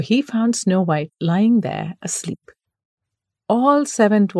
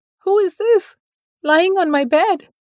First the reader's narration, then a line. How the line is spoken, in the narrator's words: But the seventh dwarf squeaked